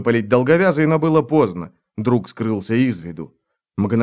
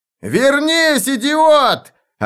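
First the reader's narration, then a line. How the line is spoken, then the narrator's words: Desperate shout. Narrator (Russian): Отчаянно прокричал он вслед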